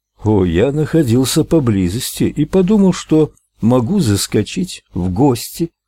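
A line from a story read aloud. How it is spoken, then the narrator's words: Plain. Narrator (Russian): ответил Ральф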